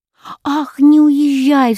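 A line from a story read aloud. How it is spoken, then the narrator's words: Sharp cry. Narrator (Russian): вскрикнула принцесса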